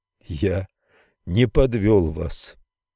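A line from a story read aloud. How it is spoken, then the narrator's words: Strained, forced out. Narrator (Russian): выдавил наконец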